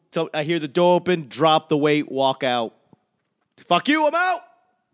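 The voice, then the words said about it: Angry yelling. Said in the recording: “I'm yelling. ... I'm so angry”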